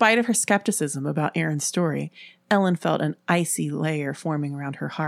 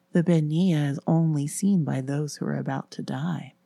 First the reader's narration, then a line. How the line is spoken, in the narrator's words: whispered slowly